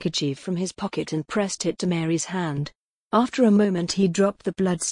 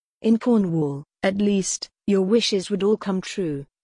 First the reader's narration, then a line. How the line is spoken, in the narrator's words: Stuart said in a conversational tone